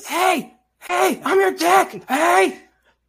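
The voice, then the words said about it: Shrieky imitation of another person's voice. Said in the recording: “That's a shrieky ... honestly a pretty good impression.”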